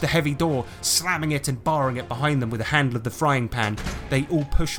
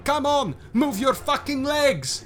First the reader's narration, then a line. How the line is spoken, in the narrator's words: shouts out